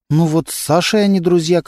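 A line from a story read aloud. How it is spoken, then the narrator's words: Timid reply. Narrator (Russian): как-то робко ответила Антонина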